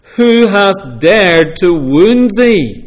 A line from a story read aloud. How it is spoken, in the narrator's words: the giant cries out